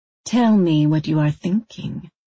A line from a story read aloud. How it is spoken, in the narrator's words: Ming said, her voice full of velvet persuasion, a vampire mesmerism